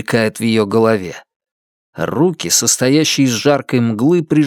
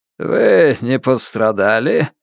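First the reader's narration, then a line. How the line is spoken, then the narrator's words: Strange creaky voice. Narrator (Russian): спрашивает ее человек странным скрипучим голосом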